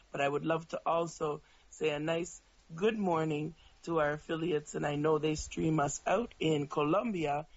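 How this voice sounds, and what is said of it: Hoarse voice. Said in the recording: “as you can hear, I'm very hoarse this morning”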